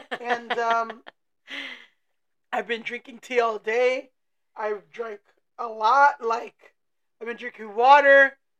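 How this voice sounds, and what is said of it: Rough, unwell-sounding voice. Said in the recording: “my voice sounds like shit”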